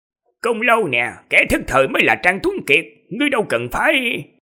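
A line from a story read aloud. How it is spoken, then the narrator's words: Loud glaring shout. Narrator (Vietnamese): Tên yêu tộc hộ pháp kia trợn mắt quát to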